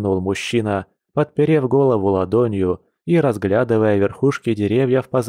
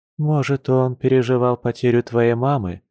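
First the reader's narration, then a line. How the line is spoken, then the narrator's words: Sad she-bear. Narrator (Russian): грустно напомнила медведица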